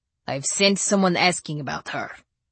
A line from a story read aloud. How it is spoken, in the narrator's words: he said wearily